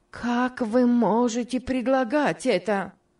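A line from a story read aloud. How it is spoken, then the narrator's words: Exclaimed. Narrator (Russian): воскликнула Мари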